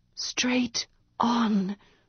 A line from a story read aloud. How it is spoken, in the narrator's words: she whispered